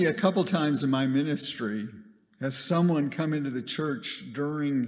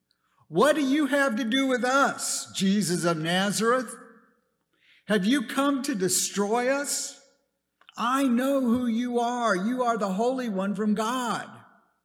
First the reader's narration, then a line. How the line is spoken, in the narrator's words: a person with an evil spirit screamed